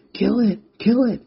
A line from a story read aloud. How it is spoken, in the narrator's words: Rex shouted